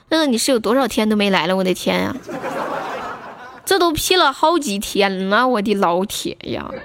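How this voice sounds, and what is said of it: Northeastern Chinese accent. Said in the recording (Chinese): “这东北口音，那可不，他们都说我是东北的”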